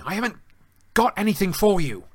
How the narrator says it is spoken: Harry snapped at Hedwig

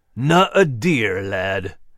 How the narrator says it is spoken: Max growled

